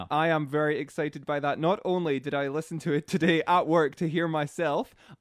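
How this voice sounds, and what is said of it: Speaks with a noticeable accent. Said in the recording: “shamelessly flirt with your accent ... it's just the accent ... everybody else loves the accent”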